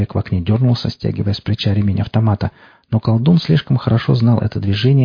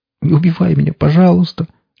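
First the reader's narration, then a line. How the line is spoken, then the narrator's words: Sobbing. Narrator (Russian): Велес всхлипнул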